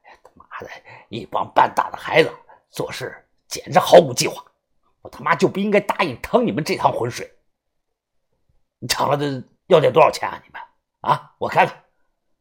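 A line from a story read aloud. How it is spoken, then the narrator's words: Grumbling middle-aged man. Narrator (Chinese): 这个中年人啊，抱怨着，嘟嘟囔囔的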